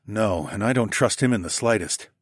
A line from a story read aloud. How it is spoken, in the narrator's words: I murmured